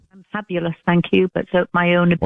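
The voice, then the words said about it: British English accent. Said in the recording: “you don't sound like you're from Alabama ... I'm British ... a British accent ... I love her accent ... an English accent”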